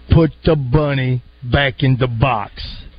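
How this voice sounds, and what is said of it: Southern-accented imitation of an actor. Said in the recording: “Cameron Poe in the belly of the plane ... that was an Oscar performance by Nicolas Cage ... His southern accent”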